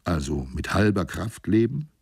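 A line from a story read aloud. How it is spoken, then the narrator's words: Stubborn mutter. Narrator (German): murmelte ich eigensinnig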